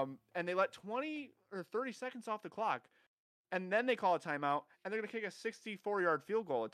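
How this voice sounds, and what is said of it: Usual voice. Nothing is said of it.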